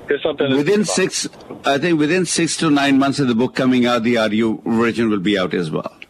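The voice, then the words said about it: Indian or Pakistani accent. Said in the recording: “my funny accent ... I love your Indian or Pakistani accent.”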